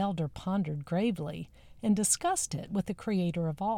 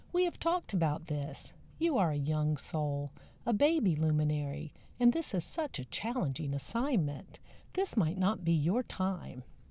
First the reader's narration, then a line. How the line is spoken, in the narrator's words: the elder said kindly